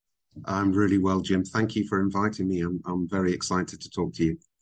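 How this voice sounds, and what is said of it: British English accent. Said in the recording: “my accent isn't a UAE accent. It's very British”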